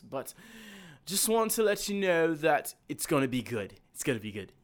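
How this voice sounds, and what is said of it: Speaks in a put-on accent. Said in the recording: “I don't know why I'm in this accent”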